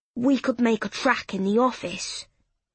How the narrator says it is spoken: air whistling through his teeth as he said

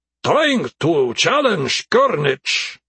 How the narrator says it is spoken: Nebri answered, then shouted louder in Krepan

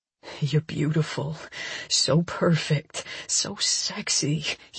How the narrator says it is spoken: he murmurs

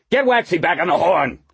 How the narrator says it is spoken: He yelled

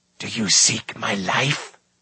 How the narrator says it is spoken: hissed Morda

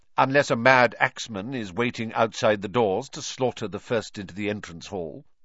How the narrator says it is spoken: said Professor McGonagall coldly

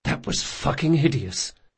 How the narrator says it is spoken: he muttered

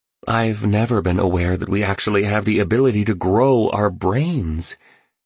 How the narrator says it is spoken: noted the entrepreneur excitedly

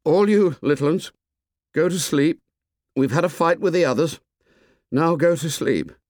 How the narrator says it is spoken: Ralph called out in a quavering voice

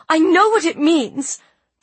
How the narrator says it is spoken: the girl exclaimed, turning even redder

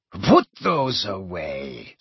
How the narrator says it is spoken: she said coldly

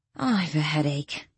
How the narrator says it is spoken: Danielle groaned

